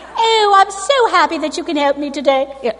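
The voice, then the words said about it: Put-on American accent. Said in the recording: “My American accent.”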